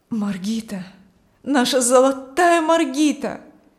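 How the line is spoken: Exclaimed. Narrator (Russian): воскликнул Аурелий

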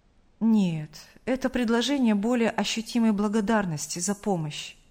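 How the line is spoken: Calm reply. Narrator (Russian): спокойно ответил Сергей Павлович

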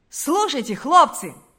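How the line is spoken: Young man exclaiming. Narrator (Russian): воскликнул кто-то из молодых людей

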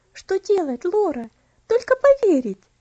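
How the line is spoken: Warm, heartfelt. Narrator (Russian): ответила Элси тем же сердечным тоном

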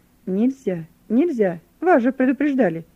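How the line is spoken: Shouting. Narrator (Russian): закричал офицер

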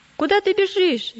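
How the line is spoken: Stubborn man shouting. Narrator (Russian): закричал упрямый

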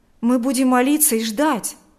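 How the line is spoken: Agitated voice. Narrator (Russian): взволнованно сказал Берни

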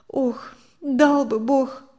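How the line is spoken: Sighing. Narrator (Russian): вздохнула Мария Семеновна

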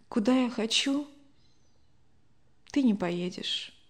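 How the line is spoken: Quiet, sighing. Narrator (Russian): Любовь Александровна вздохнула, тихо произнесла

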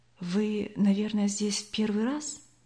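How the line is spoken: Quiet young man asking. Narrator (Russian): все так же тихо спросил старший из юношей

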